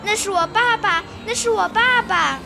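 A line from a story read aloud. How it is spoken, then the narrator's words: Startled loud cry. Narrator (Chinese): 匹诺曹……突然大吃一惊，大声叫起来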